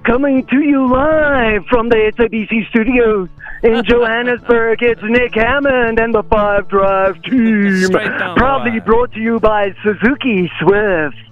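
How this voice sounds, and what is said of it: Imitates another person's voice. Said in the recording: “That wasn't me. That was ... doing a unmistakable impression.”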